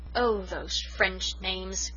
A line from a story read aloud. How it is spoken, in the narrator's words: groaned Susan